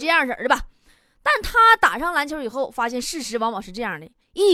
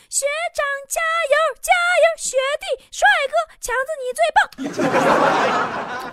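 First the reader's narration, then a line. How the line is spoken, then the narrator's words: Excited cheering. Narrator (Chinese): 很多妹子，激动搁那喊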